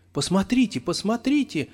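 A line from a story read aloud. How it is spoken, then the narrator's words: Exclamation. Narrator (Russian): воскликнула Людмила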